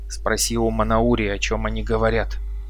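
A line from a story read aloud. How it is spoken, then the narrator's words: Whisper. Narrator (Russian): прошептал я Арнаку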